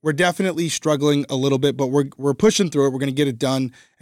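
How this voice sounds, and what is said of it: Voice strained by sore throat. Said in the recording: “I have a sore throat.”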